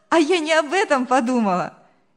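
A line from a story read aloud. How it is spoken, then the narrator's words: Cheerful girl laughing. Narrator (Russian): весело рассмеялась девушка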